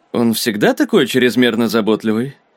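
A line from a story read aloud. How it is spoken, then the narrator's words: Grumbling. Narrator (Russian): проворчал Ксейден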